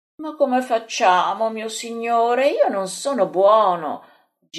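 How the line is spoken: Moaning. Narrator (Italian): geme Andrea

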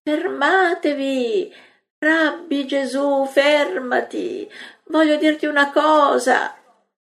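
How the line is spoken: Pleading woman's cries. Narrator (Italian): griti della donna che supplica

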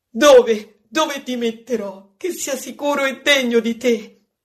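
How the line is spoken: Woman crying out. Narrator (Italian): ella grida

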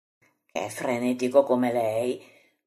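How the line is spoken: Quiet mutter. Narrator (Italian): borbotta piano Pietro

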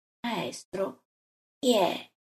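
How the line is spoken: Murmuring in ear. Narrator (Italian): gli mormora all'orecchio

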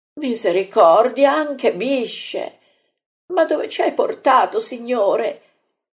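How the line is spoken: Frightened moan. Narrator (Italian): geme Marta, così spaurita

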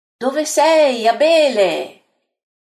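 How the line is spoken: Shouting voice. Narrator (Italian): grida una voce

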